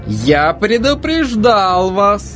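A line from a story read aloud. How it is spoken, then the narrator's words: Triumphant voice. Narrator (Russian): сказал Плоуд торжествующим голосом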